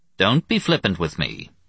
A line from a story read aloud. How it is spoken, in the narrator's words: Louis said evenly